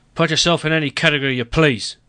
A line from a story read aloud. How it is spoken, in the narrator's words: he grumbled